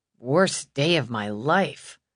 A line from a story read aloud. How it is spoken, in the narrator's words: Mal mumbled